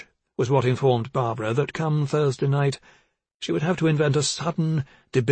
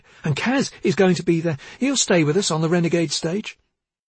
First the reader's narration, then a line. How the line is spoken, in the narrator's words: Dorothea exclaimed